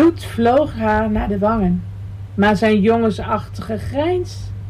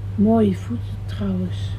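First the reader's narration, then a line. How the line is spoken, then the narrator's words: Whisper. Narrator (Dutch): fluisterde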